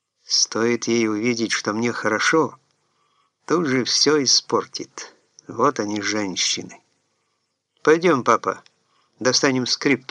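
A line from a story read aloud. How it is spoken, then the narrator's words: Plain. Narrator (Russian): сказал сын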